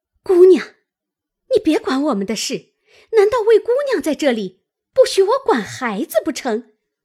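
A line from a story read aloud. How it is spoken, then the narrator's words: Angry, sneering laugh. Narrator (Chinese): 莺儿……赌气红了脸……冷笑道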